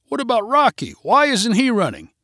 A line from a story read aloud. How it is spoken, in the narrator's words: someone shouted